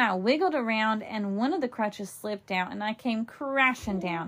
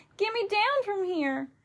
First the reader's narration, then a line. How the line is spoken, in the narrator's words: shouted